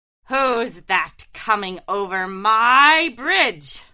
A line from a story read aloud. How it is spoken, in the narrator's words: roared the troll